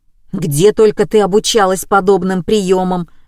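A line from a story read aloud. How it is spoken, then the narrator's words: Husband grumbling. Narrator (Russian): ворчал муж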